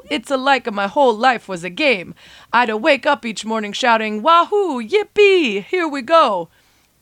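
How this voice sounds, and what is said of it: Mario impression accent. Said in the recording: “apologies for the accent.”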